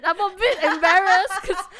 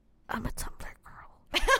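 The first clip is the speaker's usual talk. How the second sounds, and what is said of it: Whispered. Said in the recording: “Why did you whisper ... that?”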